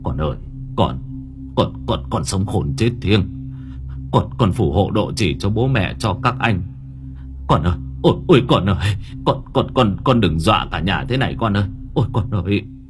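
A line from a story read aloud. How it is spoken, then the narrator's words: Stammering old man. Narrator (Vietnamese): Ông Bình lắp bắp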